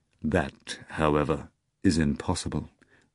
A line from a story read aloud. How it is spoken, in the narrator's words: Voland said gravely